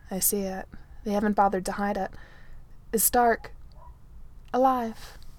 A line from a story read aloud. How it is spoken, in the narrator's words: Natasha says